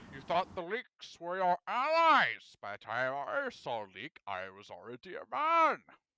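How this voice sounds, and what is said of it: Bane impression. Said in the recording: “Ah, I'm Bane. ... I do the voice really well, so I can't resist.”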